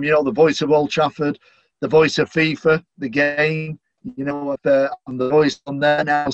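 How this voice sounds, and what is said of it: Manchester English accent. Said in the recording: “I'm very proud of my Manchester accent”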